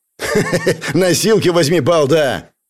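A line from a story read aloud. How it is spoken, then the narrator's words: Malicious laugh. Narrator (Russian): Зло рассмеялся автоматчик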